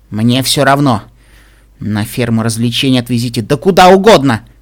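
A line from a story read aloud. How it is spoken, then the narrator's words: Grumbling. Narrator (Russian): проворчала Пинки Пай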